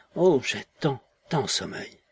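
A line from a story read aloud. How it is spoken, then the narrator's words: Sleepy smiling mumble. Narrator (French): tuée de sommeil, sourit encore, balbutia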